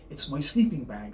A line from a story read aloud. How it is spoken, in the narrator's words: said the fox